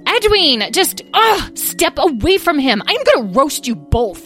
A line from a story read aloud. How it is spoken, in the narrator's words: the golden one shouted